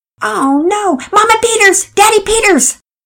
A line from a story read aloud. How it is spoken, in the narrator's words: both shouted